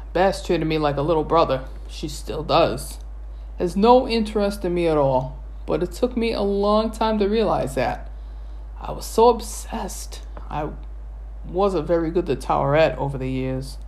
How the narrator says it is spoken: Bess sighed

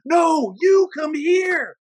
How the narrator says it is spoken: screamed

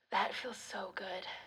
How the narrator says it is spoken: she rasped

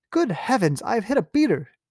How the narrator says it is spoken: exclaimed Sir Geoffrey

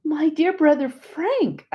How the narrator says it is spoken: I cried out joyously

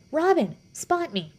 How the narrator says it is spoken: she shouts

